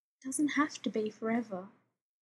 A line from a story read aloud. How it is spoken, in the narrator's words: Rodney says quietly